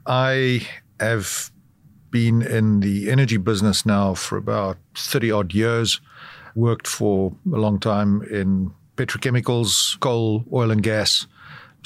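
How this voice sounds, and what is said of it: South African accent. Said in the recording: “as you can probably tell from my accent, I'm from South Africa”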